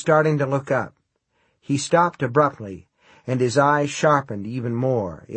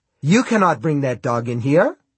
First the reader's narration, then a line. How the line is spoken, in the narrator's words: he said sharply